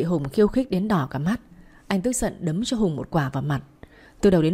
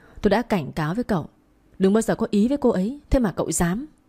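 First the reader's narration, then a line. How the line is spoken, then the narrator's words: Furious, through gritted teeth. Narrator (Vietnamese): Duy đôi mắt long lên giận dữ nghiến răng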